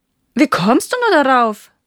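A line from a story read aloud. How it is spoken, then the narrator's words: Gardener laughing mockingly. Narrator (German): lachte ihn die Gärtnerin aus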